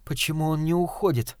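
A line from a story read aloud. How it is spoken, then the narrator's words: Whispered question. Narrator (Russian): шепотом спросила Вика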